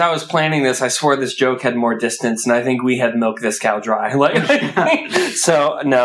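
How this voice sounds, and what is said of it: Usual voice. Nothing is said of it.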